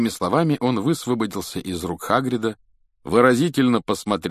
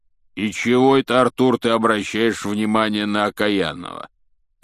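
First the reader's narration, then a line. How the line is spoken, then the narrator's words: Grumbling. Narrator (Russian): пробурчал Хагрид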